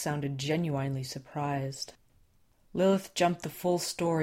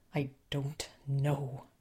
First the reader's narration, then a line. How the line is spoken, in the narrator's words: Les said